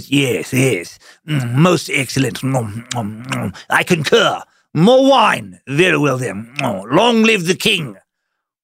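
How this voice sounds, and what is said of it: Mock Shakespearean theatrical accent. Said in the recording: “knockoff Shakespeare summer theater accent”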